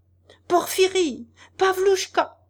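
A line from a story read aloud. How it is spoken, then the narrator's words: Furious full-throated straining shout. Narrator (French): cria à plein gosier Nozdrev furieux, tout en s'efforçant d'échapper aux étreintes de son convié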